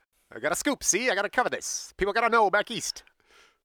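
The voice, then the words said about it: Put-on Mid-Atlantic accent. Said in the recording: “Mid-Atlantic accent? ... That is my mid-Atlantic accent.”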